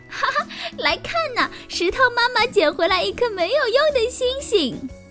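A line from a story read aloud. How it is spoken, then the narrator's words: Mocking shouts. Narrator (Chinese): 小草们互相传递嘲笑的喊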